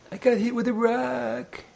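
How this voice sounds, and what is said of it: Cartoon character voice impression. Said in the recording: “That's your Mr. Magoo impression? ... No. That's my droopy dog impression.”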